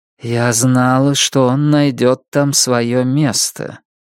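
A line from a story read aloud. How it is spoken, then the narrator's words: Dull, muffled. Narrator (Russian): Жемчужина глухо сказала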